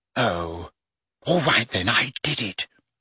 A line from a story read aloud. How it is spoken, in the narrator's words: she whispered